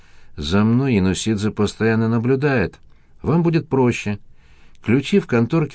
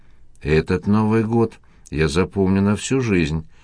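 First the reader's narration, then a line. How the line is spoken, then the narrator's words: Sighing. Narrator (Russian): вздохнула Катя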